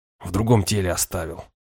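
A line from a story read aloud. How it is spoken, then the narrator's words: Angry grumble. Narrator (Russian): буркнул я, злясь на себя за откровенность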